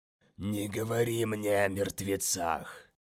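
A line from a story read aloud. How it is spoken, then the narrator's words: Hiss. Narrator (Russian): Прошипел Мазалай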